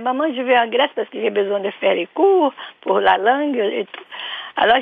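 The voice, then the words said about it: Brazilian accent in French. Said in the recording (French): “votre accent, donc ... c'est l'accent ... brésilien”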